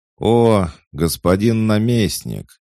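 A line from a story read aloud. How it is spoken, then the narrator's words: Snide, smiling. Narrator (Russian): ехидно улыбнулся Михаил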